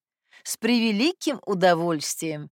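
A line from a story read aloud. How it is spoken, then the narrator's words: Laughing. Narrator (Russian): Смеясь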